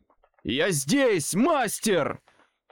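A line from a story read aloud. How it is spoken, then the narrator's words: Shouted. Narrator (Russian): выкрикнул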